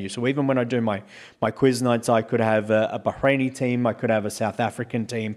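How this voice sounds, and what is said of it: Mild, clear Australian accent. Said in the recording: “my accent is not a typically thick Australian accent because I don't talk like I'm talking through my nose ... you speak a lot slowly and a lot more clearly”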